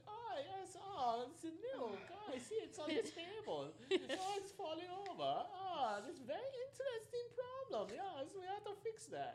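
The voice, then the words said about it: Stereotyped German accent character voice. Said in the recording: “a bad stereotype of a German accent ... the Conker's Bad Fur Day weasel”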